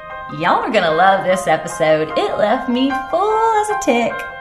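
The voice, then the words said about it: Put-on regional accent. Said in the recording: “that's not my typical lingo or my accent, but it only felt natural after spending the time in Indiana”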